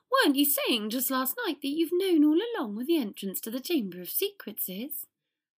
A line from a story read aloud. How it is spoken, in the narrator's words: I sputtered Lockhart